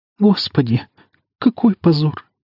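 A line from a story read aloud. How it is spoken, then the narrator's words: Quiet sobbing. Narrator (Russian): среди тихих всхлипов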